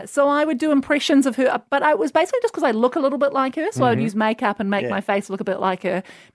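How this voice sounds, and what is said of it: New Zealand accent. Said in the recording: “I just have a New Zealand accent.”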